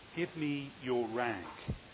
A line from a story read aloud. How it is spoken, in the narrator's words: he said so gently